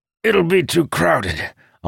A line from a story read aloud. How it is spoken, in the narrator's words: Amandal said with a grunt as he shifted one of the barrels